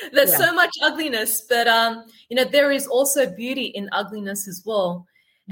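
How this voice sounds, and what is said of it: Australian accent. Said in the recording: “born and brought up in Sydney, Australia, as you could tell by my accent”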